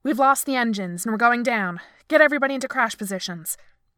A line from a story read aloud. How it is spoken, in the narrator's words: he snapped